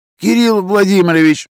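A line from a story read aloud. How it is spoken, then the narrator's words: Exhausted wheeze. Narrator (Russian): просипел из последних сил Изя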